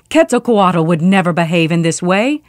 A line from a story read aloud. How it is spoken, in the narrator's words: saw the bodies of their friends, they shouted